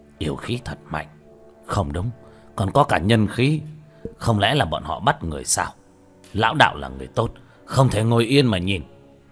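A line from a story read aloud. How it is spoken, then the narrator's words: Old man muttering. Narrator (Vietnamese): Lão đạo sĩ ... lẩm bẩm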